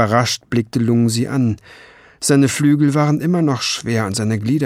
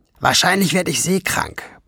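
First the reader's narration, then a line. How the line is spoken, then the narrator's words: Grumbling. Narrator (German): brummte sie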